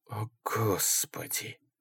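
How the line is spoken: Breathed out. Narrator (Russian): выдохнул Ингелман

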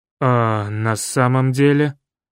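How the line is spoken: Strange, hollow voice. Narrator (Russian): Чужим, глухим голосом спросил участковый милиционер

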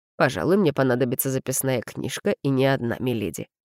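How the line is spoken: Man's amused snort. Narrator (Russian): хмыкнул мужчина

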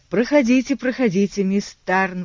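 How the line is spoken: Exclaiming. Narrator (Russian): воскликнул он

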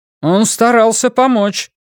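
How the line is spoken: Sharp, female guard. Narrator (Russian): резко сказала охранница

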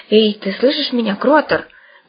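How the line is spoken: Urgent whisper. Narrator (Russian): горячо зашептал Бульонов

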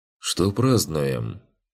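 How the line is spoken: Gloomy question. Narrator (Russian): уныло спросил Ригарди

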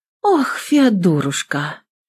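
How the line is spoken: Exhaling. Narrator (Russian): Выдохнула

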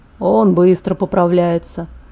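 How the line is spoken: Muttered. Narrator (Russian): пробормотал он

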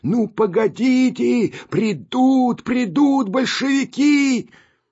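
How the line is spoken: Shouting. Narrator (Russian): кричали

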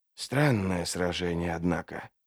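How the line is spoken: Muttering. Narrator (Russian): пробормотал Трясучка

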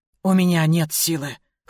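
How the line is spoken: Hoarse. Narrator (Russian): хрипло ответила

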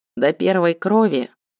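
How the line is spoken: Calm question. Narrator (Russian): Кирьян спокойно спросил

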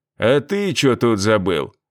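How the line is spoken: Rude question. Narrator (Russian): грубо спросил

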